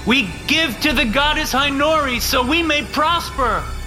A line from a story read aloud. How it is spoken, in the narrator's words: the pledges shouted